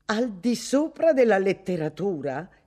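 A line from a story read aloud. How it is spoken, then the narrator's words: Woman exclaiming. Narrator (Italian): esclamò lei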